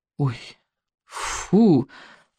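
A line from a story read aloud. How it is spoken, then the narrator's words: Groan. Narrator (Russian): простонал Икинг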